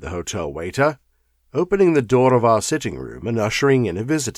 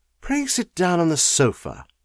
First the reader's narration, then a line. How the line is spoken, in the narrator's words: said Holmes gently